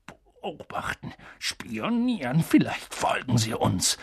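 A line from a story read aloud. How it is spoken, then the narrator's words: Confused murmur. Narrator (German): murmelte Onkel Vernon verwirrt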